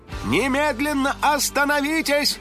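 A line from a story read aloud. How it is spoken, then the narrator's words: House spirit shouting. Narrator (Russian): крикнул домовой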